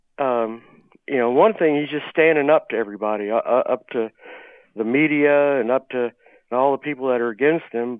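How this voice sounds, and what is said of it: Slightly congested, subdued voice. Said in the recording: “I've got a little cold, so I'm kind of down a bit”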